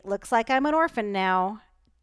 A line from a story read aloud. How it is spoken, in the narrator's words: said Stanley brightly